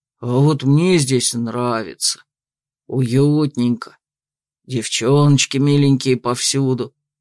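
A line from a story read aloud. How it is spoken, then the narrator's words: Dreamy drawl. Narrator (Russian): мечтательно протянул Аутбьорн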